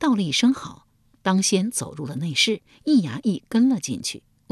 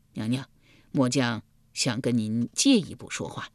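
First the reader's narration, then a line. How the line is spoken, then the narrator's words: Heavy sigh. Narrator (Chinese): 易牙重重地叹了一口气道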